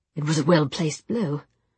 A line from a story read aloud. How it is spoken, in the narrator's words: Gideon said calmly